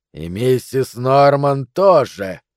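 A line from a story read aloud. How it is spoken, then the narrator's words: Gloating monstrous hiss. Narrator (Russian): прошипел монстр с тошнотворным злорадством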